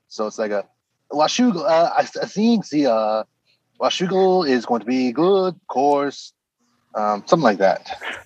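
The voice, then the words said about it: Imitated accent with drawn-out syllables. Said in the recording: “every other syllable is a long syllable for them, no matter what it is, like a vowel”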